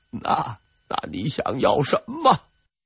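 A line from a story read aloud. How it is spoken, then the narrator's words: Hearty laughing. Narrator (Chinese): 张献忠又笑了，哈哈哈哈哈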